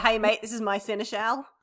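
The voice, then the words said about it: Exaggerated broad Australian accent. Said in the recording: “that accent? ... got ... to do a funny voice ... Every Australian can do that voice ... the Australian accent is actually quite a varied thing ... our more exaggerated accents ... Bogan Australian”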